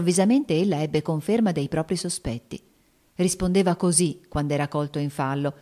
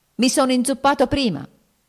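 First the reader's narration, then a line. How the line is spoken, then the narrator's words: Near shout. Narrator (Italian): gridò quasi egli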